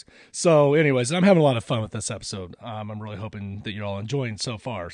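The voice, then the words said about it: Deep, congested voice. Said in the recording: “I'm using my sinus drainage to have my deep voice.”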